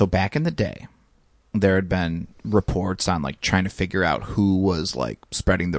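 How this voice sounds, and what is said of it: Usual voice. Nothing is said of it.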